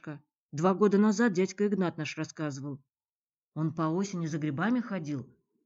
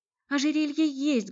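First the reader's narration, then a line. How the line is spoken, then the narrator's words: Fervent exclamation. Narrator (Russian): горячо воскликнула Наталья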